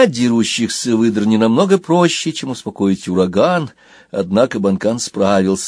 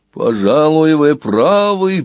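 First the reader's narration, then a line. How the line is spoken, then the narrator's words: Booming whale voice. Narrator (Russian): прогремел кит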